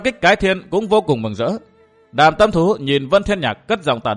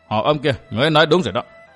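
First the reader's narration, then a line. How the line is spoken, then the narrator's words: Cold laugh, speaking. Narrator (Vietnamese): Lạnh lùng cười, Vân Thiên Nhạc nói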